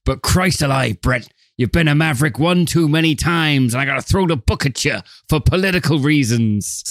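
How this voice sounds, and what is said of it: Tough old-fashioned movie detective voice. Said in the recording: “Is that your Don Johnson impersonation? ... It's my fucking whatever voice that these detectives use in this film, which is a sort of mix of, hey, look, see. ... But weirdly out of time and context.”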